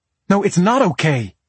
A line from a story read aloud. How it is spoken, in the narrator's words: she snapped